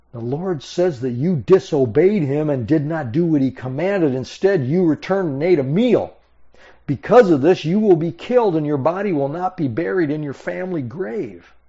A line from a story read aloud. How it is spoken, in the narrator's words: the old prophet, and he cried out to the prophet from Judah